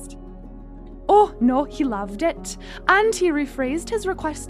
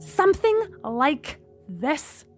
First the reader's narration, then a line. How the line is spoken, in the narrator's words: Gemma spat